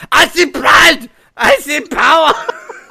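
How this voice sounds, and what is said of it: Put-on German accent. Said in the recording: “I want this whole thing done in a German accent.”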